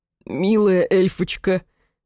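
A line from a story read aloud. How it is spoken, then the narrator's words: Demonic hoarse rasp. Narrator (Russian): прохрипел демон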